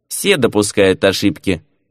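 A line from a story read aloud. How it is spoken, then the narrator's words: Snorting. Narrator (Russian): хмыкнул Шут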